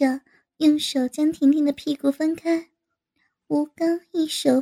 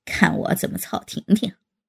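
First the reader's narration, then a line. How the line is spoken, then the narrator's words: Laughing. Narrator (Chinese): 吴刚笑道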